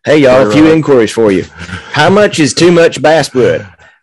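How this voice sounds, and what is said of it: Put-on Southern US accent. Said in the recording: “I'm gonna do a southern accent for reading this.”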